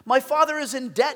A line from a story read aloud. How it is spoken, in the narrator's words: cried